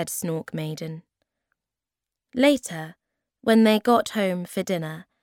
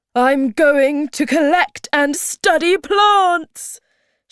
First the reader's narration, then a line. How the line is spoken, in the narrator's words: shouted the Hemulin